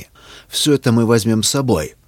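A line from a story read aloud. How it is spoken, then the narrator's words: Commanding tone. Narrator (Russian): Властным тоном произнес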